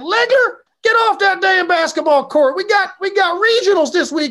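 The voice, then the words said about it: Southern accent, yelling coach. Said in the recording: “he had a southern accent”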